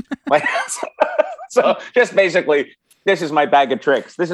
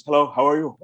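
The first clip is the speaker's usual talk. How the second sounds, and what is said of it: Imitates another person's voice. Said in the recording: “you do Robin Williams.”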